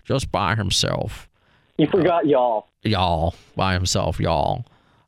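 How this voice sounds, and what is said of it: Put-on Southern accent. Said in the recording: “I don't know if I'm doing a good uh, southern accent.”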